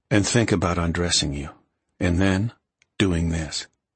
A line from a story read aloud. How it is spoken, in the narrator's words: Graham murmured against his neck